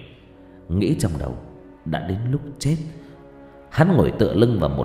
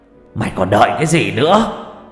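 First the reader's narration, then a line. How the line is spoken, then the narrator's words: Shout. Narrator (Vietnamese): Hét một câu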